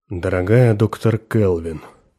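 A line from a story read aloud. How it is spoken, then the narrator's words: Unusually deep voice. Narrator (Russian): заговорил генерал необыкновенно низким голосом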